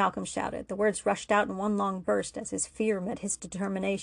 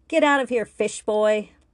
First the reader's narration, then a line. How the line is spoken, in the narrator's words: Leslie spat